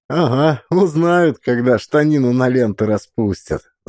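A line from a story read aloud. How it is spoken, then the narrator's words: Laughing. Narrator (Russian): засмеялся Максим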